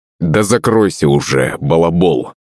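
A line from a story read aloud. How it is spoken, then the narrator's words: Growling. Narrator (Russian): рыкнул на него Светогор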